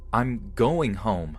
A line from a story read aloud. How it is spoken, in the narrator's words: Starting to get severely unnerved by this guy, I blurted out